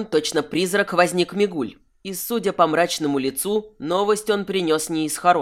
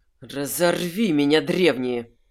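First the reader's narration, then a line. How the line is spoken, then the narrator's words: Growl. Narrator (Russian): прорычал Кайфат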